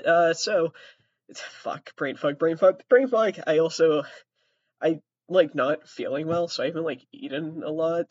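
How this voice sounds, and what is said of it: Sick, rough voice. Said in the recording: “Sorry for my voice. ... Sorry for the coughing. ... COVID is here.”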